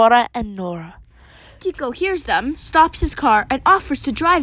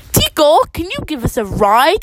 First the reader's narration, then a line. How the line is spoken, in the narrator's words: exclaims Dora